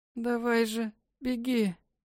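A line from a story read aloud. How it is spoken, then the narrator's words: Mother's hoarse rasp. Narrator (Russian): Прохрипела мать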